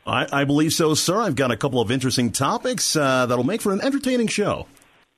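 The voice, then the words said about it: Polished radio announcer voice. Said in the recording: “He's got a wonderful voice... you can hear that radio voice, can't you, folks? I mean, this guy, a modern day Wolfman Jack.”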